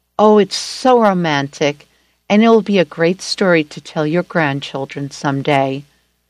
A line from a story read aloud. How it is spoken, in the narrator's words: She sighed and said